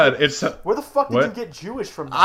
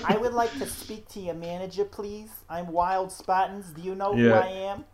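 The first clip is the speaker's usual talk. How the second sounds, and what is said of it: Entitled soccer mom voice, Kyle's mom. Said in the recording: “a Jewish housewife, apparently ... It just sounded South like Park. Those ladies ... It sounded like South Park. Kyle's mom ... It's the soccer mom meme”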